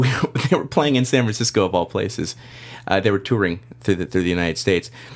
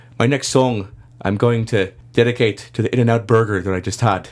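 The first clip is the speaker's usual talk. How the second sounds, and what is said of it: Bad put-on Irish accent. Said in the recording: “I'm going to do a horrible Irish accent”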